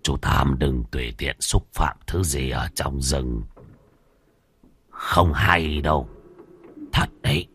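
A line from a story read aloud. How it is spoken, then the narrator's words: Old beggar, soft warning. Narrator (Vietnamese): Lão ăn mày khẽ nhắc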